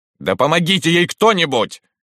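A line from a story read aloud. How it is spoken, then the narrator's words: Barked. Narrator (Russian): рявкнул Спиридонов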